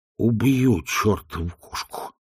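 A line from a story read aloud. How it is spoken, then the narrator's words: Muttering. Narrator (Russian): пробормотал он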